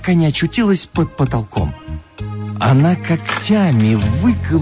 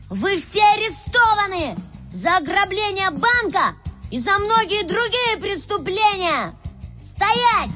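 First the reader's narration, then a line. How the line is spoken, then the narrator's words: Shouted. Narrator (Russian): он крикнул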